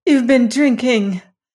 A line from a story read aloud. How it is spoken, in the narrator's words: cried Lorelei